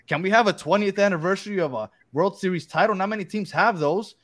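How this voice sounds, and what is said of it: Excited New York accent. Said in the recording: “when you get really excited, that New York accent really shines, man. It's beautiful.”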